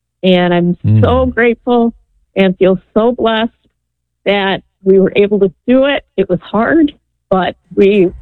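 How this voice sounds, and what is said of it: Choked up, emotional voice. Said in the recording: “I'm a little choked up.”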